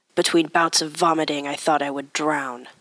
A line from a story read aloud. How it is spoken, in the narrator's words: the man grumbled